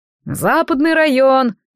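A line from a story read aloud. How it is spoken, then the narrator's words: Called out loudly. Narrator (Russian): выкрикнул кондуктор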